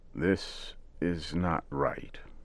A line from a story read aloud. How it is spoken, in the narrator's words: Old Joe said slowly and carefully